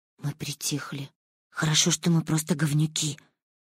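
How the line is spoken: Relieved whisper. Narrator (Russian): шепнула я Мане с облегчением

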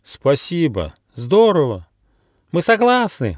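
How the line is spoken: Overlapping excited shouts. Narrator (Russian): наперебой закричали друзья

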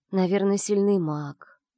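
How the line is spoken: Dreamy sigh. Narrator (Russian): сказала Фати и мечтательно вздохнула

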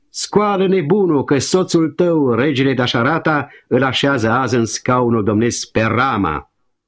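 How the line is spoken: Angry, spiteful shout. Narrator (Romanian): mânioasă, plină de ciudă, strigă

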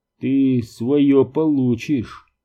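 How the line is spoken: Through clenched teeth. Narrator (Russian): процедил

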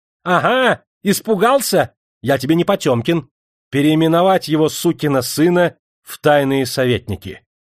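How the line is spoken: Laughing, cheerful shout. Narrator (Russian): довольный быстрой ретирадой, Павел отошел сердцем, расхохотался и уже весело крикнул

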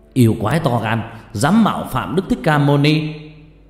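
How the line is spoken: Fierce shout. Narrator (Vietnamese): một thiên tướng đứng gần rút lưỡi gươm sáng loà lao tới, che cho Đức Thích Ca mà hét lên

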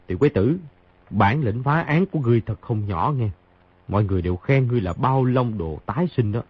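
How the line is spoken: Soft laugh, speaking. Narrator (Vietnamese): Khang Hy cười khẽ một tiếng nói

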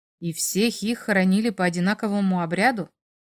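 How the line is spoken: Plain question. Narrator (Russian): спросил

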